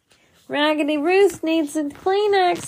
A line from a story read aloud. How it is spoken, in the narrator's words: I yelled next